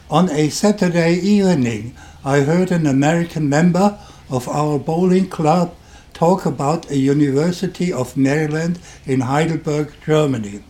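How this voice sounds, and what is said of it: German accent. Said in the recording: “You can hear from my accent that I'm German.”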